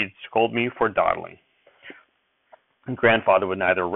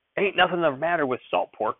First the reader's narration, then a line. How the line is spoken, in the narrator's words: Grandfather snapped